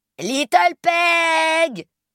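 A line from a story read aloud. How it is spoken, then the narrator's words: Sudden shout. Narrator (French): hurle Big Peg brusquement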